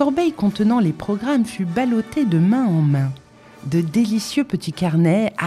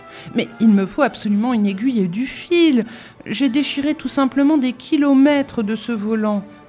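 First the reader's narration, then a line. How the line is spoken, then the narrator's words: Moan. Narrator (French): gémit une troisième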